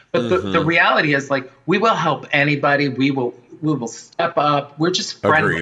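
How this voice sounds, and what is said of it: Thick Bronx New York accent. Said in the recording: “my thick Bronx accent”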